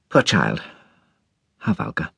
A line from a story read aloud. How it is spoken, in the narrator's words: murmured Mrs